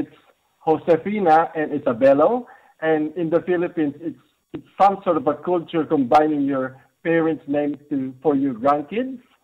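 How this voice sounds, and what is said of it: Speaks with a noticeable accent. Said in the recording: “because your accent”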